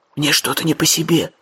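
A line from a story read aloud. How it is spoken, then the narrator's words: Whisper. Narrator (Russian): шепнул Джим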